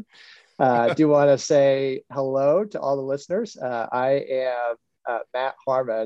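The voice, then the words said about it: Deeper voice from a cold. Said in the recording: “I have a severe cold this week, and so my voice is a little bit deeper.”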